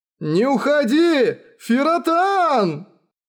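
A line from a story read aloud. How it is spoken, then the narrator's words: Sudden shout. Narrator (Russian): Вдруг закричал Матаясу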